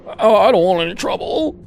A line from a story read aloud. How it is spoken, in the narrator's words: the owner whimpered